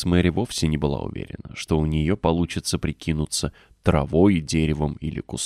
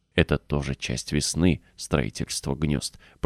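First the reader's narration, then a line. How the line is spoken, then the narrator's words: Boy whispering. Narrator (Russian): прошептал мальчик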